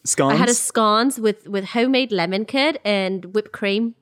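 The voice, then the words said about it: Put-on South African accent. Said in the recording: “That was my South African accent.”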